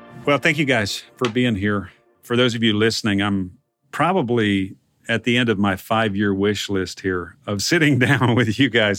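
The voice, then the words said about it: Texas drawl. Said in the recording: “my Texas drawl”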